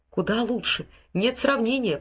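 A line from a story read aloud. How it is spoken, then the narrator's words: Whisper. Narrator (Russian): прошептал Ральф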